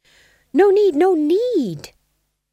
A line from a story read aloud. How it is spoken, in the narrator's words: said the Fool desperately